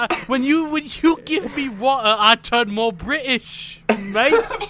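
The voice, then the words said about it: Suddenly strong British accent. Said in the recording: “Why are you British? ... Your accent has changed all of a sudden. ... my accent's just stronger at times.”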